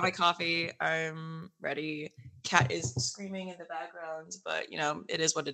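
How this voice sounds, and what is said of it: Raspy, hoarse voice. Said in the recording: “my voice is a little raspy right now from New York Comic Con”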